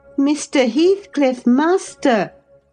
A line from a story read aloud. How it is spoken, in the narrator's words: I cried